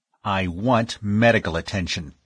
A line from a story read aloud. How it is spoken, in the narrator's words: snapped the other